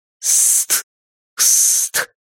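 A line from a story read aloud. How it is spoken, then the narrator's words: Hissing. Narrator (Russian): прошипел баллончик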